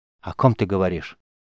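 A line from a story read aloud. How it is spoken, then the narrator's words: Sighing, holding back tears. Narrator (Russian): глубоко вздохнула, уговаривая предательские слезы не течь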